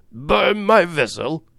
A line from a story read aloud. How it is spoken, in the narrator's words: cried Captain Speedy, who could scarcely pronounce the words